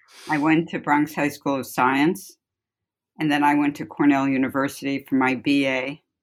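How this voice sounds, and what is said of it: Slight Bronx New York accent. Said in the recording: “I'm from the Bronx, and that should be clear in my accent a bit.”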